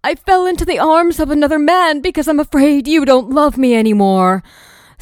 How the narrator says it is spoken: wail

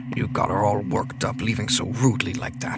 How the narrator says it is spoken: he murmured

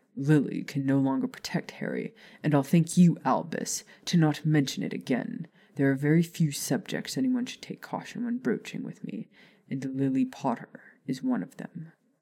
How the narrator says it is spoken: said on the edge of a growl

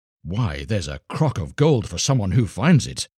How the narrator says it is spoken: they cried, so eager were they to find the gold

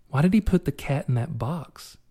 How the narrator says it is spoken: Sophia whispered

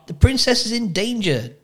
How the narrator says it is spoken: Despero yelled

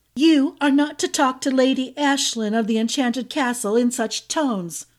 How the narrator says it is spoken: Izalova called out

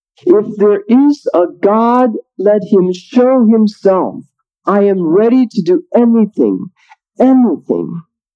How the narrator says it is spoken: he cried out from his depths

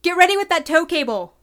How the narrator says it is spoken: Aelor shouted to Dintra

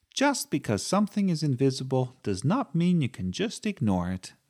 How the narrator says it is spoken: said Sophie firmly

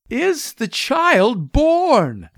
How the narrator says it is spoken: begged Mr

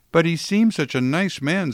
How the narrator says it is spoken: said Sister Frances Louise wistfully

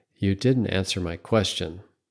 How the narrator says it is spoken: said quietly

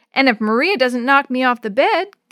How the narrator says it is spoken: giggled Yo-Yo

